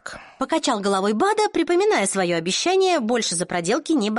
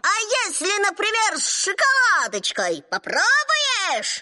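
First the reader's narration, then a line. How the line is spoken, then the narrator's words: Squeaky, to himself. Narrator (Russian): Пищал он самому себе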